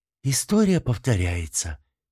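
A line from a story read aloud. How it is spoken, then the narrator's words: Mother speaking quietly. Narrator (Russian): тихо сказала мать Зоана, впервые нарушив молчание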